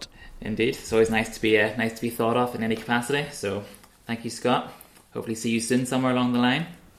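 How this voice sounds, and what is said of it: Northern Irish accent. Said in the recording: “the accent certainly, you were born in Northern Ireland, brought up and raised in County Antrim”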